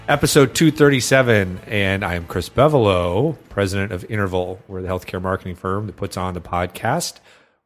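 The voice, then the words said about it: Scratchy, hoarse voice. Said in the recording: “My voice is still scraggly. ... I'm like a 78-year-old man who smoked his whole life.”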